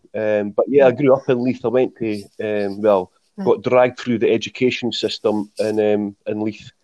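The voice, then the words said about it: Strong Scottish Leith accent. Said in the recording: “strong Leith accent ... my accent is so strong”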